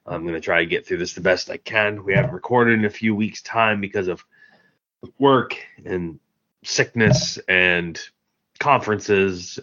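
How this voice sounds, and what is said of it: Congested, sick-sounding voice. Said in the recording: “I have a bit of a cold. ... I sound awkward, maybe.”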